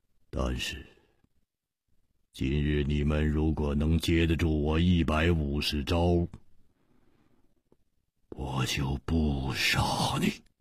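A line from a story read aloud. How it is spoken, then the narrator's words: Cold, menacing. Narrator (Chinese): 他的目中忽然射出了一股杀机，冷冷地说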